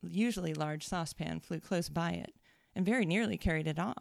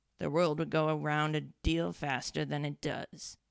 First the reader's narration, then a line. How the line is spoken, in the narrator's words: the Duchess said in a hoarse growl